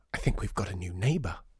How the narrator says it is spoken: whispered

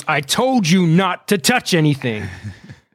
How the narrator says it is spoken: He starts, but he cuts it off

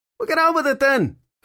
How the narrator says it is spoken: Filthy Henry yelled back

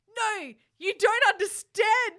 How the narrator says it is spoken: screamed Draco sadly

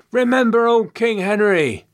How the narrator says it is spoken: Someone cried out from the crowd

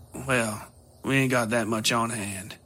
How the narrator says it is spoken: she said, sighing

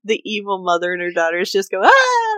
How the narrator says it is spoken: I laughed out loud

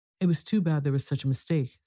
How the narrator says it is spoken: said Mrs

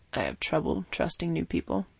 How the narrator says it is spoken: she said calmly

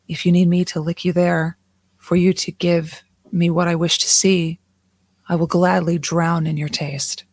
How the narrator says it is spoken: Zerna whispered

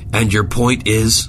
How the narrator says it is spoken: Zimmerman barked into his headset

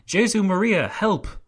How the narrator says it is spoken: cried

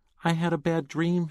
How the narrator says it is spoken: she moaned

